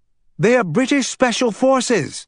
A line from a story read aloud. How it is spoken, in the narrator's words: shouted, finally beginning to hear her own words as the effect wore off